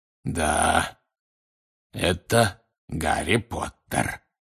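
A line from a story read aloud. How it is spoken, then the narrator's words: Hoarse rasp from behind. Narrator (Russian): прохрипел кто-то сзади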